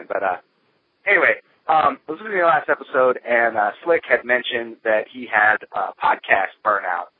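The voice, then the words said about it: Voice still rough from illness. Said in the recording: “Excuse my voice. I was sick, so I'm still recovering.”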